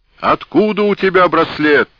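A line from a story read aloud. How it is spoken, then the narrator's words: Frenzied scream. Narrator (Russian): исступленно закричал Георгий X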